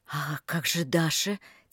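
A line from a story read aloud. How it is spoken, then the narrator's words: Quiet, horrified. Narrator (Russian): тихо проговорила Рита, с ужасом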